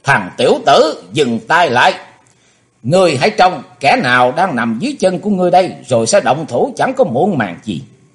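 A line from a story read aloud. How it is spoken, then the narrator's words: Shrill old woman's shriek. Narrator (Vietnamese): Nhưng quỷ bà đã hét lên lanh lảnh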